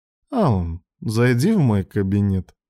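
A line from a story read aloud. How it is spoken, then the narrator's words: Tender cooing voice. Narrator (Russian): проворковал он нежным голосом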